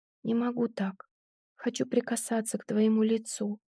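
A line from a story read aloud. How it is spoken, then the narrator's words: Whisper. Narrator (Russian): прошептала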